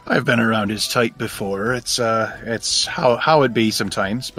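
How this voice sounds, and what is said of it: Put-on accent, inconsistent. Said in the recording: “I'm also wandering with the accent a little bit”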